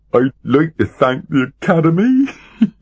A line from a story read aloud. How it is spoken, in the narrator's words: giggled the dwarf